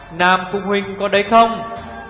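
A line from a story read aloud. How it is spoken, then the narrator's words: Throat-clear, raised call. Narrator (Vietnamese): Tiểu Phi đằng thắng lên một tiếng, cất cao giọng gọi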